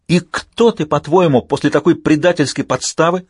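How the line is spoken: Shout. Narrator (Russian): закричала

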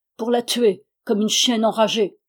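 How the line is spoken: Thundering voice. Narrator (French): répondit Stepan d'une voix tonnante

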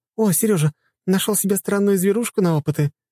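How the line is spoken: Giggling. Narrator (Russian): хихикала Лиза

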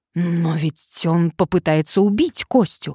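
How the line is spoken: Exclaiming. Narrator (Russian): воскликнул Сарычев

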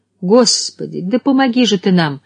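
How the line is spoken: Exclaiming. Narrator (Russian): воскликнула она

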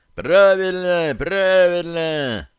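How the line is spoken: Crowd shouting. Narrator (Russian): заорали вокруг

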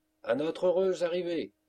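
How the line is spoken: Exclaimed. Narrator (French): s'écria-t-il

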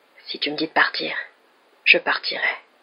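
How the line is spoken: Strangely hoarse voice. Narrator (French): dit-il d'une voix étrangement enrouée

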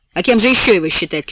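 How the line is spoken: Loud shouting woman. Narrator (Russian): кричит она громко

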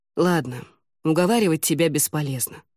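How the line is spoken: Resigned sigh. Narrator (Russian): вздохнул он

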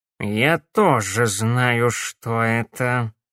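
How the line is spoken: Muffled, hollow voice. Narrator (Russian): глухо произнес Корнелиус

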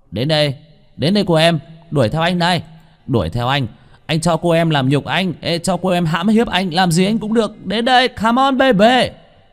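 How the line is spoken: Loud shouting. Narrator (Vietnamese): Vương Bình hét to

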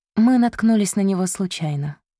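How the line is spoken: Calm reply. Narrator (Russian): спокойно ответила Ванесса

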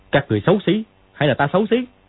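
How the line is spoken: Shout through a mask. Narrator (Vietnamese): đeo cái mặt nạ vào quát

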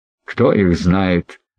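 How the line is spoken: Laughing reply. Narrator (Russian): рассмеявшись, отвечал Танкрет

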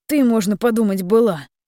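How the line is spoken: Grumbled. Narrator (Russian): проворчал дрончик

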